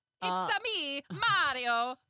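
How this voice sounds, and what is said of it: Bad Italian accent, Mario impression. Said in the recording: “I think I'm going to give him a bad Italian accent ... the two Italians I can think of, both of them are going to be offensive. The first one is obviously Mario.”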